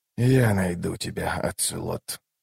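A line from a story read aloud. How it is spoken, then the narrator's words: Whisper. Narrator (Russian): прошептал Ном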